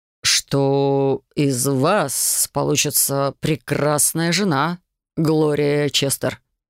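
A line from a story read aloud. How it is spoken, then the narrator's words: Soft, slightly vibrating voice. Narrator (Russian): Мягким, слегка вибрирующим голосом закончил он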